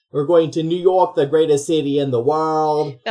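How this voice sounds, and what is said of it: Attempted New York accent, Boston-ish. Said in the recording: “That was drifting more towards Boston ... I don't know how to do an accent.”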